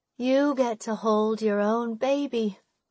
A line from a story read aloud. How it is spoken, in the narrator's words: say, sighing sleepily, sadly